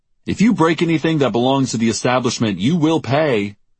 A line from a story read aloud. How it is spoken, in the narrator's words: shouted the bartender